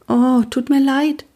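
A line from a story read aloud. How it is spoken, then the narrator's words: Thin voice. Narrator (German): sagte Pia mit dünner Stimme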